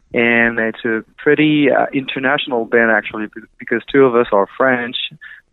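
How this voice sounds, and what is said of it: French accent. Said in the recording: “as you can hear, my accent, I'm French”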